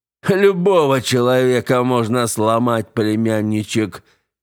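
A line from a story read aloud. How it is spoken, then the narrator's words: King laughing. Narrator (Russian): рассмеялся король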